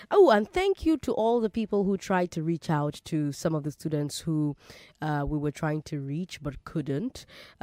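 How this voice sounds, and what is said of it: Congested, slightly off voice. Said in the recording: “I'm sure you can hear that I have a cold, so apologies if I sound a bit off”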